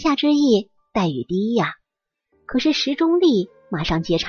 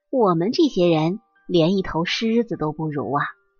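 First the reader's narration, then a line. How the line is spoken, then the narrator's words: Sighing, tongue-clicking group. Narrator (Chinese): 穷公务员，听完之后连连啧舌，纷纷叹息着说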